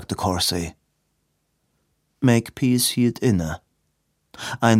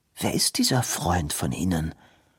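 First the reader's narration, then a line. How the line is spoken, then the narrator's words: Quiet question. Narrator (German): fragte Robin leise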